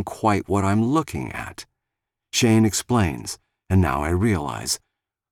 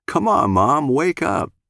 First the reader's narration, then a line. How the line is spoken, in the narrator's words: Shane laughs